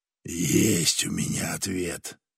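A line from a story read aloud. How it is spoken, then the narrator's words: Hissed. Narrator (Russian): прошипел он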